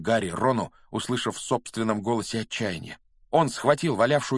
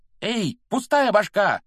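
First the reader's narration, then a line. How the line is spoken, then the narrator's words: Yelling. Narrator (Russian): заорал Рон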